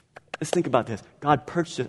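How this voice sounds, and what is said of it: Impression of preacher Freddie Fry. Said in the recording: “That's my Freddie Fry impersonation right there. ... I don't do it as good as he does, though. ... I just can't get the pop.”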